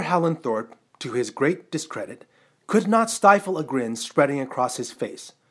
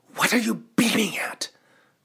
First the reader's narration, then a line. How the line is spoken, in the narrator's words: Howland Thorpe hissed in his ear